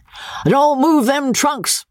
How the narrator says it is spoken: he cried

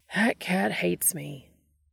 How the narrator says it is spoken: Dean said with a sigh

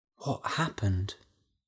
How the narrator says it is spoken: whispered Della

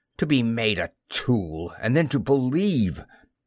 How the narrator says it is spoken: he spat at me

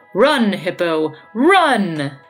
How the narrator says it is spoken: the one nearest his nose cried out

